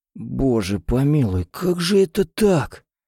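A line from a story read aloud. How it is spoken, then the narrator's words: Strangled groan. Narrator (Russian): Сдавленно простонал Винсент Монтгомери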